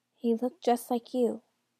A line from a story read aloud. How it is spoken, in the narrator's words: she added quietly